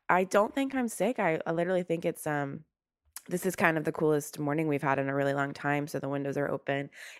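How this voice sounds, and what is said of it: Slightly raspy voice. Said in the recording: “I am a little raspy.”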